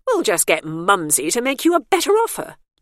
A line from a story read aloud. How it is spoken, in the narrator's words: Bernice said brightly